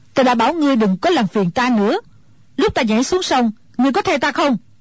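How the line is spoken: Angry old woman. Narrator (Vietnamese): Mụ già tức giận nói

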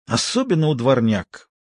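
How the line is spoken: Disgusted grumble. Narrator (Russian): с отвращением проворчала Мирна

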